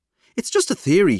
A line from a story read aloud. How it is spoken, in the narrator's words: says hastily